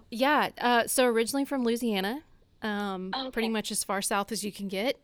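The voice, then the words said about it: Southern American accent. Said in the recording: “I'm loving your accent... if I start sounding like Southern”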